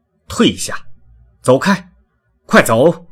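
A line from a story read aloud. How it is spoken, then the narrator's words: Commanding shout. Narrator (Chinese): 他命令似的喊着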